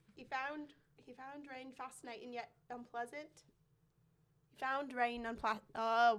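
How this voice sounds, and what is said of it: Struggling attempt at British accent. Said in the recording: “British? ... British. British. ... You struggled that hard with British?”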